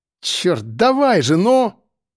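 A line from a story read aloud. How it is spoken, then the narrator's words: Shout. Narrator (Russian): выкрикнул Серега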